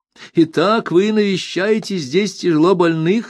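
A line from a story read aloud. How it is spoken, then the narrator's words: Plain question. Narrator (Russian): спросила она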